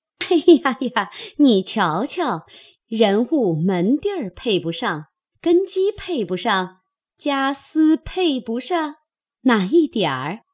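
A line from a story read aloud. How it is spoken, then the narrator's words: Laughing. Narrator (Chinese): 凤姐笑道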